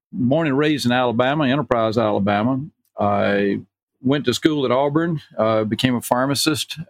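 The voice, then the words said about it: Southern US accent. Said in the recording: “you can tell from my accent, you know, that I came from down south”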